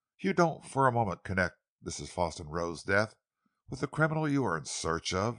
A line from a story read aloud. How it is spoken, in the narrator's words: he exclaimed